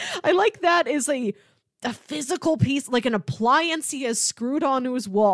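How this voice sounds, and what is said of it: Usual voice. Nothing is said of it.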